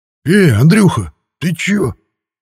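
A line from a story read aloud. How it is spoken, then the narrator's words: Yelling. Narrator (Russian): завопил он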